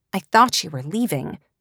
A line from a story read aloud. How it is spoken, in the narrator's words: snapped